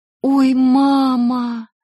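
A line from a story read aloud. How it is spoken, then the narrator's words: Embarrassed groan. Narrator (Russian): простонала я, чувствуя, как начинаю сгорать от стыда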